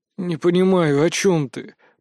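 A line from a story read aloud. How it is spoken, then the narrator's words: Grumbling. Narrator (Russian): проворчал я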